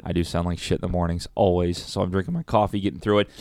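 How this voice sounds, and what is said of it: Raspy morning voice. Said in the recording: “my voice being a little raspy. It is in the morning. ... you sound like shit. ... I'm all groggy in the morning”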